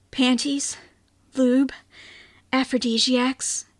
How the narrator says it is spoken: breathed

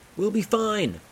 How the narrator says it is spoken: shouted Gunhild over the wind

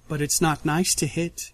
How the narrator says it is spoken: she says softly, smiling so sheepishly

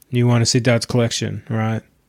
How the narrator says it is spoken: Marius asked in a toneless voice

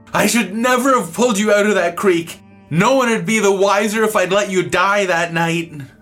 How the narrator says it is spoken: he was yelling and blubbering mad and sad, and he screamed

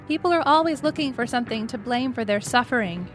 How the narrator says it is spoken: Yuri said earnestly

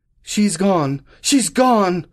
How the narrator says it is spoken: he cried

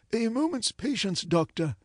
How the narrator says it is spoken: answered the Professor

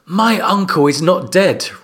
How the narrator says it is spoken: Rob Stark said loudly, anger in his tones

